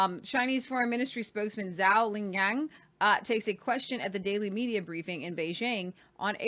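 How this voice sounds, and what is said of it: Usual voice. Nothing is said of it.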